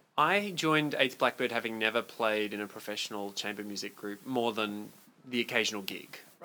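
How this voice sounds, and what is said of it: Slight Australian accent. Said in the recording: “a little bit of a hint of an accent... I'm from Australia”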